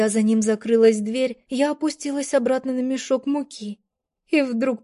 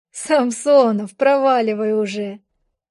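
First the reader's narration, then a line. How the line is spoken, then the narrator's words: Laughing. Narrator (Russian): Рассмеялась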